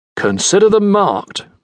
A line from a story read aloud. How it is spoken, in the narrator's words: Norrington responded in his clipped British accent